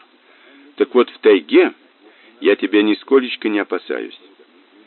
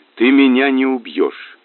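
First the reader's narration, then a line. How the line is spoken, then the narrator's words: Calm, smiling. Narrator (Russian): даже улыбнулась вполне спокойно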